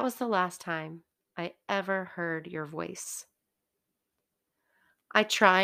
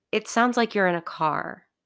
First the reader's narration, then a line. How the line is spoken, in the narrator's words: you said